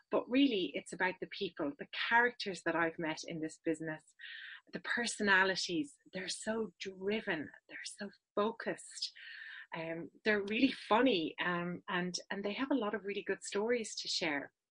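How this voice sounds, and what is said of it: Irish accent. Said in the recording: “This is an Irish accent.”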